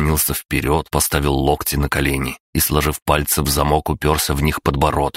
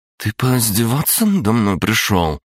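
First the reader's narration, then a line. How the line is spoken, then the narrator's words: Gloomy, through clenched teeth. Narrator (Russian): хмуро процедила кураторша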